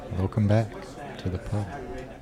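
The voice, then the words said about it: Quiet, soft, calming voice. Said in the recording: “why are you talking so quiet? ... I feel like he's going to read an audiobook to us right now, like a calming one. ... Speak up when you talk to me.”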